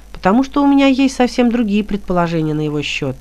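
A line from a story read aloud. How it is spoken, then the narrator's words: Calm. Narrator (Russian): спокойно сказал Хилот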